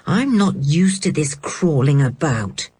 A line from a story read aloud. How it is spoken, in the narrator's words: grumbling